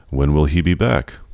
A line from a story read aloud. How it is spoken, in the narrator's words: asked a little nervously